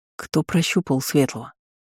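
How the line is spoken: Quiet question. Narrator (Russian): спросил тихо Джорит

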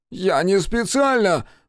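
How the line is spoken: Strained, forced out. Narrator (Russian): выдавил из себя Джейкоб

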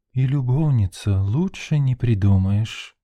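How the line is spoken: Soft deep chest voice. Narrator (Russian): мягким грудным голосом произнесла Нина

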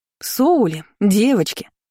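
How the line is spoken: Joyful female exclamation. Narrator (Russian): радостно воскликнула она

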